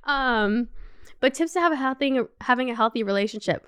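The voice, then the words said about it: Slightly slurred, tipsy speech. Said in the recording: “I had like a couple sips of the wine ... I need to actually sober up a little bit. I'm slurring my words.”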